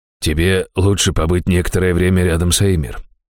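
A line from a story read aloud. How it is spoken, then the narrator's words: Gentle priest. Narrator (Russian): мягко сказал жрец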